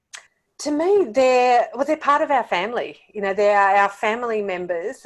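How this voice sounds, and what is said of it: English or Australian accent. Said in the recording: “your accent because we all love English and Australian accents”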